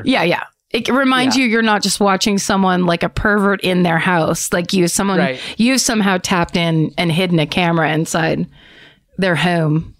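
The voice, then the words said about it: Philadelphia accent. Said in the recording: “that Philly accent again”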